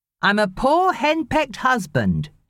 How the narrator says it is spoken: he yelled down the stairs

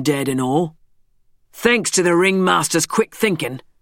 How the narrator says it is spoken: the man growled

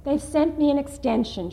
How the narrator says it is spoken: she sobbed

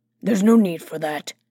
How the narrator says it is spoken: he snarled

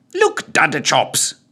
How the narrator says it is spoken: barked Marley the senior, losing what little patience he had

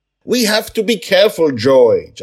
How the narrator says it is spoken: Justin shouts at her

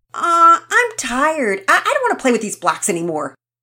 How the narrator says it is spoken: Rocket yelled

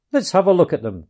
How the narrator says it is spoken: cried the rat

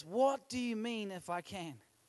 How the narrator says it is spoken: Jesus asked

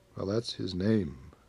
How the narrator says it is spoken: said softly

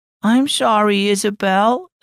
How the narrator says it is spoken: Elias said sadly

